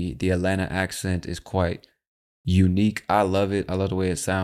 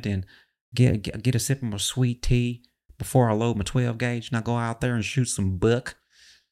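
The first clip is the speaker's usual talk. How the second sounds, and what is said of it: Put-on Southern twang accent. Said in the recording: “it's just got that southern twang to it. You know what I'm saying? You got this kind of southern accent, you know, sounds a little bit like the former president”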